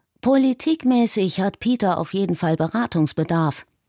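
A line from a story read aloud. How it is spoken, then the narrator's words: Plain. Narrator (German): antwortete Yiannopoulos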